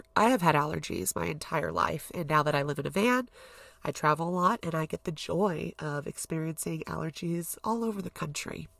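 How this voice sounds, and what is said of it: Nasal, congested voice. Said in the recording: “if I sound a little nasally, which I currently do”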